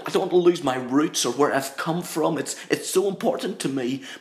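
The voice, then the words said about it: Northern Irish accent. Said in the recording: “I'm from Northern Ireland, very proud of the fact that I'm an Ulsterman through and through. And this accent ... I don't want to lose my accent.”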